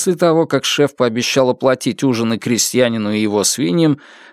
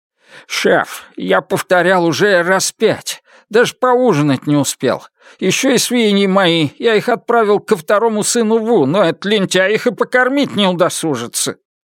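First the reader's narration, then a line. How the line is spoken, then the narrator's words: Pleading, miserable. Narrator (Russian): С несчастным лицом хозяин взмолился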